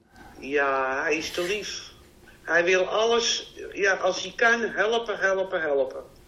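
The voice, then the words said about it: Broad Amsterdam Dutch accent. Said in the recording (Dutch): “Je hebt echt een mooi Amsterdams accent. ... ik ben ook een platte Amsterdammer”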